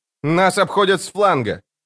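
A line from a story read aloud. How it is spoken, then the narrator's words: Shout. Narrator (Russian): крикнула она арбалетчику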